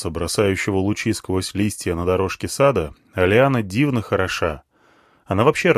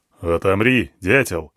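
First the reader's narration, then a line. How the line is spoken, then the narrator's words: Snorting elephant. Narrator (Russian): хмыкнул слон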